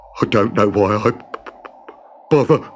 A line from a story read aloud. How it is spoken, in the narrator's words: he mumbled as he struggled to squeeze down inside